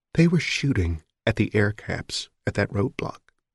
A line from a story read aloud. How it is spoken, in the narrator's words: she said quietly